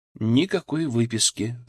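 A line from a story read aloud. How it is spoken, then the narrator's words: Even, calm voice. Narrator (Russian): сказал я ровным, спокойным голосом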